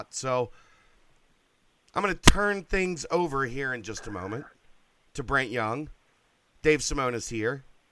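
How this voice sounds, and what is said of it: Hoarse, worn-out voice. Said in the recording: “I've done radio the past 3 days and my voice is shot”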